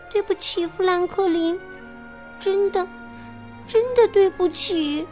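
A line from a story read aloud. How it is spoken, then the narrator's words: Quiet muttering. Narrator (Chinese): 哈利特小声嘀咕着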